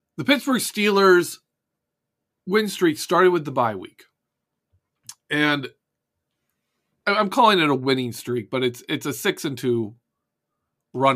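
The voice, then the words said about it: Hoarse, congested voice. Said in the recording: “My voice is kind of messed up right now. I have a sore throat and some congestion”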